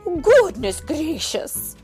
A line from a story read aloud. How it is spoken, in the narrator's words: exclaimed Mrs